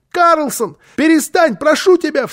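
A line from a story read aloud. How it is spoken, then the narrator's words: Frightened child's shout. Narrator (Russian): в страхе крикнул малыш, потому что он видел, в каком бешенстве была Фрёкенбок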